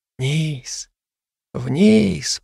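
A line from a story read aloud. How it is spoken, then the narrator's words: Whisper. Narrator (Russian): прошептал Зао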